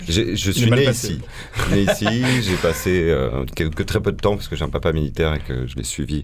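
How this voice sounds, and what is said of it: Parisian French accent. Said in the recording (French): “On a reconnu l'accent quand même. ... c'est vrai qu'il est toujours un peu là, l'accent pointu”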